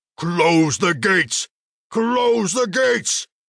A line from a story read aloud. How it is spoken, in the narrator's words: His voice boomed so loudly it vibrated within the shaman's chest